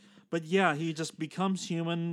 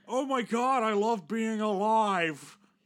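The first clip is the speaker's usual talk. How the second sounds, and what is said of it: Imitates another person's voice. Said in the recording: “my Nicolas Cage impression”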